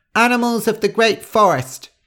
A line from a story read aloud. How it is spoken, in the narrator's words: cried Wreathchest